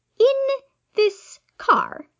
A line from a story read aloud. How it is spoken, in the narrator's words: Aziraphale said slowly